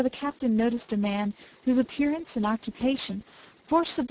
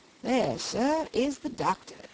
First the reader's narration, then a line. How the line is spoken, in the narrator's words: said the attendant of Henry, very coolly